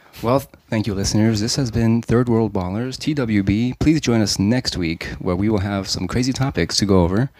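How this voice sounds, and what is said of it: Suave radio announcer voice. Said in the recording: “give your suave voice ... Like you're signing off NPR.”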